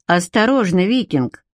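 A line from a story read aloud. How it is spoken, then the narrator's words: Cold warning. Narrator (Russian): холодно предупредила девушка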